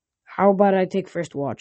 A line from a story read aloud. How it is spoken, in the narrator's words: I said